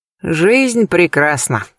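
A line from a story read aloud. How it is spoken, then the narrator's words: Smirking snort. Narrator (Russian): хмыкнул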